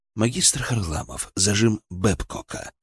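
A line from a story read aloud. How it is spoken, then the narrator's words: Calm, distinct repetition. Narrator (Russian): повторил, на этот раз совершенно спокойно и отчетливо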